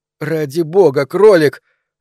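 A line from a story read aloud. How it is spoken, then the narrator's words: Stunned exclamation. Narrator (Russian): ошеломленно воскликнула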